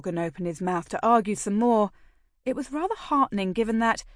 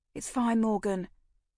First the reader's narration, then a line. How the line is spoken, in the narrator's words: I said softly